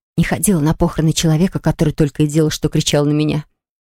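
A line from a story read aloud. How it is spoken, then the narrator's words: Whisper. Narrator (Russian): шепнула она Полли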